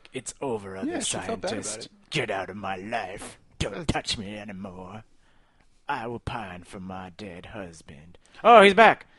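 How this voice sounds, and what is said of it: Imitates another person's voice. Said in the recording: “That's my Natalie Portman impersonation.”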